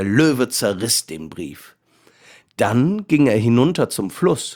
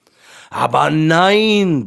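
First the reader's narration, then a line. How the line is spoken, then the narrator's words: Lion roaring. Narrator (German): brüllte der Löwe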